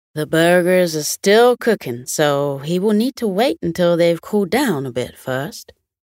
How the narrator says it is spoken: Young chuckled and replied

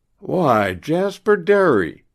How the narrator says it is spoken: cried Mr

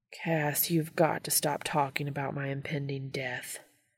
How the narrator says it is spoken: grumbles

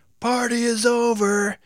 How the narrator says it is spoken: he shouted

